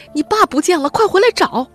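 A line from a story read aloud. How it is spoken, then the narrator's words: Mother shouting. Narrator (Chinese): 母亲在喊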